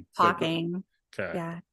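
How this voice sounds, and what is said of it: Sweet Southern-accented female voice. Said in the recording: “my accent ... You do have a sweet, sexy voice ... It was that Southern with the talk”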